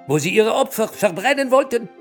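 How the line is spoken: Shouting. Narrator (German): schrie Passepartout

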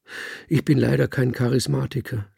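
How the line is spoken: Sighed. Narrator (German): seufzte mein Herr

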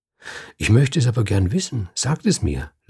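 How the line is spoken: Laughing. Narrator (German): lachte Siegfried mit

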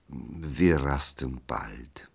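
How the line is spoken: Gentle. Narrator (German): sagte der heilige Josef sanft

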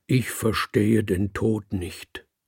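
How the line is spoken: Sighing. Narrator (German): seufzte

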